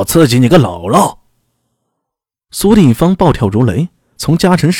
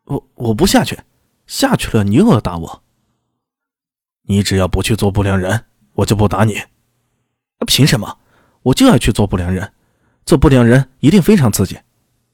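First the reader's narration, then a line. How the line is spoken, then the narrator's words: Stern, harsh. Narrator (Chinese): 苏定方站在树下厉声道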